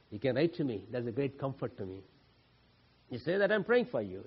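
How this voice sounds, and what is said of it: Non-native English accent. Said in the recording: “my English accent”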